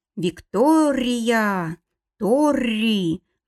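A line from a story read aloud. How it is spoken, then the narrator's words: Velvety growl. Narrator (Russian): бархатисто прорычал он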